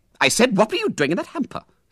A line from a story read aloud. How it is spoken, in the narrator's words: snapped the lady again